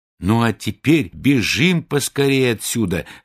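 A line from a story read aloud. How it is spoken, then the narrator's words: Plain. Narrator (Russian): сказал Гензель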